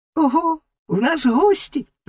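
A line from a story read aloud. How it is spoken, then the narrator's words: Exclamation, little frog. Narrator (Ukrainian): вигукнула жабка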